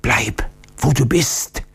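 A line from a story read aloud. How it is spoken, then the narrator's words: Warning whisper, old man. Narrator (German): flüsterte der alte Oktiondo warnend zu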